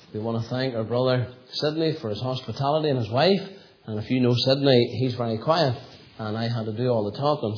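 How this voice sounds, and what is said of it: Hoarse, sore-throated voice. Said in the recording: “I have a little bit of a sore throat tonight. I think I might have been doing too much talking today ... That's why my voice is the way it is.”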